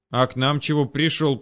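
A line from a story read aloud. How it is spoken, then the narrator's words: Through gritted teeth. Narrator (Russian): процедил ворон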